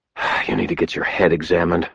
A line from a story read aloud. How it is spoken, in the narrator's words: I muttered to myself